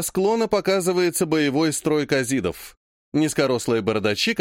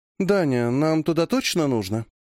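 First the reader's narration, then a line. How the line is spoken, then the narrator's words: Timid question. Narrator (Russian): робко спрашивает Лена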